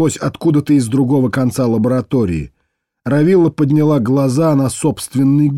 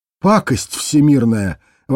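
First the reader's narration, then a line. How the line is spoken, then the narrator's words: Exclamation. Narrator (Russian): воскликнула она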